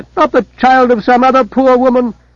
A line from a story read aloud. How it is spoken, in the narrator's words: she cried